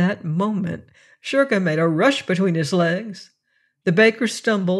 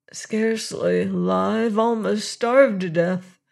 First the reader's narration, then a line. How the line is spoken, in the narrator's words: answered Martin in a weak voice